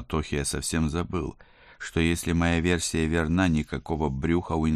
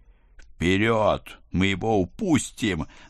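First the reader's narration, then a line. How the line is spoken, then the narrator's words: Howling urgent cry. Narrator (Russian): взвыл я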